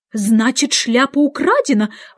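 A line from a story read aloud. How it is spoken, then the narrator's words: Exclaimed, king. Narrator (Russian): воскликнул король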